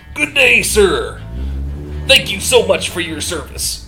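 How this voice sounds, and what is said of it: Imitates a pro wrestler's voice. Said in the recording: “You nailed that. That is exactly what I think a wrestler sounds like. ... that's a pretty good Macho Man impression.”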